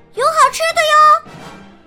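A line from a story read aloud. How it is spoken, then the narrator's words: Loud call. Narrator (Chinese): 大声喊道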